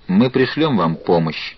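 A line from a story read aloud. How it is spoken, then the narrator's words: Even, resolute tone. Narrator (Russian): Ровным тоном, свидетельствующим о непреклонной решимости или о непробиваемом заблуждении, Нортон сказал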